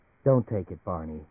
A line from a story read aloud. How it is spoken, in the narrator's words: she said quietly